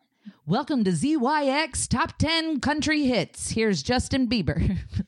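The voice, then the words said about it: Game show host radio voice. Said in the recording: “speaking in a very game show host voice ... That's my radio voice”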